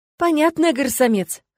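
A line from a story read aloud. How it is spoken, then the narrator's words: Smirking snort. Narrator (Russian): хмыкнул некромант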